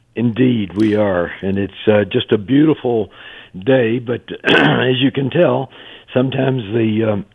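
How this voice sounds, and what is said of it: Congested voice from a cold. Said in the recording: “You can tell I've got a cold”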